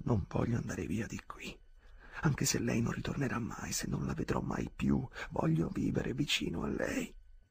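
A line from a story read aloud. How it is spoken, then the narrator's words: Ardent whisper. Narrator (Italian): sussurrò ardentemente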